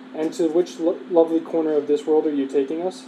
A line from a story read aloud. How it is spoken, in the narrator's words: they asked